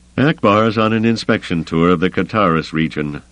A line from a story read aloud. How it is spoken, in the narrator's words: Rayikan said grimly